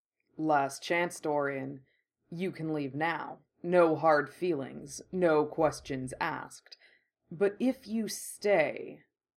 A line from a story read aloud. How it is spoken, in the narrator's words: the bull rumbled above him